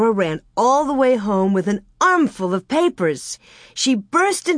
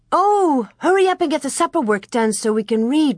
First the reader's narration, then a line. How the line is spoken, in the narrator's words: Mary said eagerly